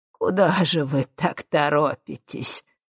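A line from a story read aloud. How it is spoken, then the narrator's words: Laughing, from behind. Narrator (Russian): рассмеялся за спиной Ипполит Германович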